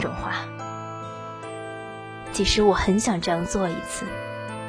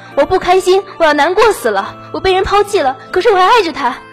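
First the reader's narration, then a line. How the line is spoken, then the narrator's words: Frantic roar. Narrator (Chinese): 发着疯对人咆哮说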